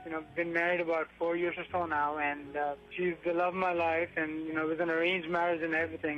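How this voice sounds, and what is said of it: Foreign accent. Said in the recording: “Obviously, that was kind of a dead giveaway there ... We're from another country, you know, you probably made out from the accent”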